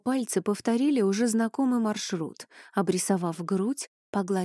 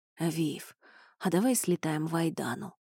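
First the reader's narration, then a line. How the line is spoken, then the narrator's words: Murmured. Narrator (Russian): пробормотал Элай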